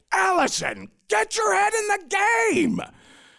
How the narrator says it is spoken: Becker, was always screaming at me

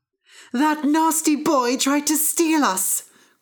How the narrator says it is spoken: cried the harp

